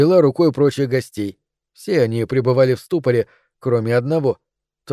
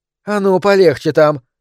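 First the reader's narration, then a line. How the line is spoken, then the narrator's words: Sharp shout, woman. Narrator (Russian): прикрикнула на него рыжеволосая женщина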